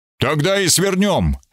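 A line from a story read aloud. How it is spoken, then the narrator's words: Brisk cheerful. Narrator (Russian): сказал сэр Смит бодро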